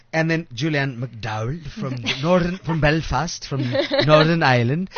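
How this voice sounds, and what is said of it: Bad put-on Irish accent. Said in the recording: “That your Irish accent? ... That is so bad.”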